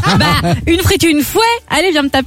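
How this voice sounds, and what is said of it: Put-on Belgian French accent. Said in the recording (French): “a tenté un accent belge ... Je peux le refaire”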